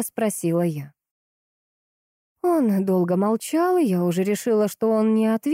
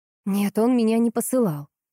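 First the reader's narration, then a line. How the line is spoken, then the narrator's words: Plain. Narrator (Russian): ответила я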